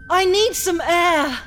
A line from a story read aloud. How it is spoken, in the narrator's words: cried Madame Danglars